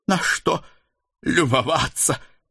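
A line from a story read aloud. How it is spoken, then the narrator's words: Half-wheezing strained retort. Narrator (Russian): Полухрипя, отбрила Дана, с трудом подымаясь с колен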